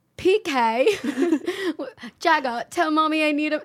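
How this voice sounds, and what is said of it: Dorit Kemsley impression. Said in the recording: “your Dorit impression? Because it's pretty good. ... it's not that good”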